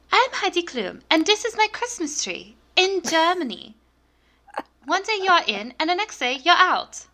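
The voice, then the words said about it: Heidi Klum impersonation. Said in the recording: “bust out my Heidi Klum impersonation ... It's very good.”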